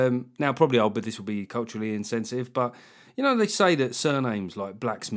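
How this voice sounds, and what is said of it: Usual voice. Nothing is said of it.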